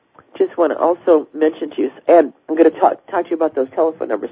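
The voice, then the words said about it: Congested voice from a cold. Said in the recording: “I've got a little bit of a cold tonight. I'm sure you can tell.”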